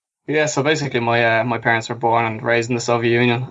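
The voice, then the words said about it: Irish accent. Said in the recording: “The Irishman ... that's how my accent came about”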